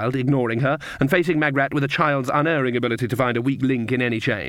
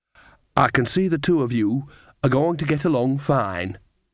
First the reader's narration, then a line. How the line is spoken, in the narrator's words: said Fairy Hedgehog